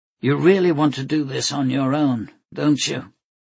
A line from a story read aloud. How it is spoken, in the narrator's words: he asked with a sigh